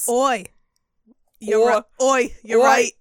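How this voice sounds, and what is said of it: Bad put-on British accent. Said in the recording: “we're going to have so many bad British accents ... Are you just going to use a bad British accent the whole time”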